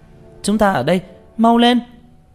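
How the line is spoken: Shout. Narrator (Vietnamese): Tranh Tử la lên

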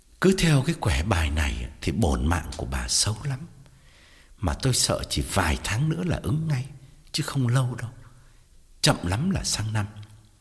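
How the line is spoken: Heavy sigh. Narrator (Vietnamese): Thầy thở dài thườn thượt và bảo

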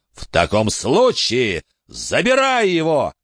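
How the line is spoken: Shouting. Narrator (Russian): крикнул он

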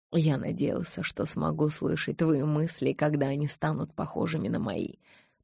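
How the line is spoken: Whispered. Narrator (Russian): прошептал

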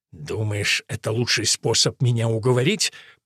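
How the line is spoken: Furious hiss. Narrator (Russian): прошипел с яростью

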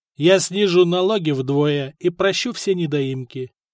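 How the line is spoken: Plain. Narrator (Russian): ответил Добрята

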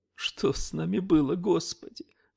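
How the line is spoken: Sobbing. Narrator (Russian): всхлипнула

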